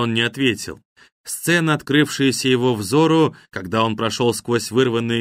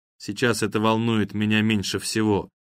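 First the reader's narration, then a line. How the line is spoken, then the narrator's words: Calm reply. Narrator (Russian): спокойно ответил апологет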